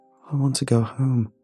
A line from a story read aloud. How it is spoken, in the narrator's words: Nathan whimpered, upon seeing the red mess of bone and brain on his thick rubber footwear